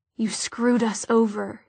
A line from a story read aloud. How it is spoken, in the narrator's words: murmured